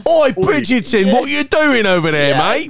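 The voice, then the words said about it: Put-on Cockney accent. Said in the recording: “Cockney accents.”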